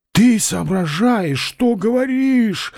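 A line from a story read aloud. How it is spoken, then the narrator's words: Muffled question. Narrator (Russian): глухо поинтересовался профессор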